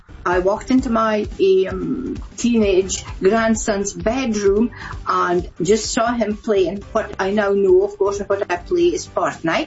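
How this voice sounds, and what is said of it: Scottish accent. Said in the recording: “Do I detect a Scottish accent in there, ... She is Scottish.”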